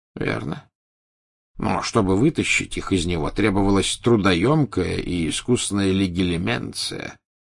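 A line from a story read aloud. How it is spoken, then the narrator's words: Plain. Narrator (Russian): сказал Дамблдор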